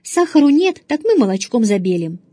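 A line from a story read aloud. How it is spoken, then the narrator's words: Father's cheerful voice. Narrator (Russian): сказал отец все еще веселым голосом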